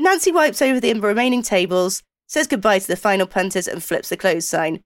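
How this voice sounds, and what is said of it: Usual voice. Nothing is said of it.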